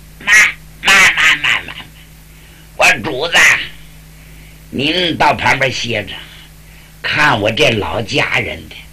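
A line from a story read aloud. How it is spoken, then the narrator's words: Cheerful chuckling. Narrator (Chinese): 山药蛋不干了，笑呵呵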